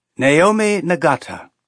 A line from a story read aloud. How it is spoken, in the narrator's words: he said, and his voice was pleasant and reedy